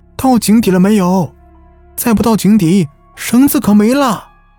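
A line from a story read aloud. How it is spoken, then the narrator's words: Faint shout from above. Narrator (Chinese): 他隐约听到上面有人喊道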